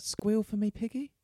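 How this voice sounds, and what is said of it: Put-on British accent. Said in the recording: “in a nice British accent”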